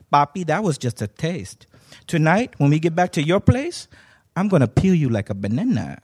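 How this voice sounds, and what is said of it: Woman's voice with an accent. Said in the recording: “with that accent”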